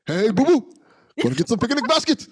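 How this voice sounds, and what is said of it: Cartoon bear character voice. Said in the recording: “do a Yogi Bear impression”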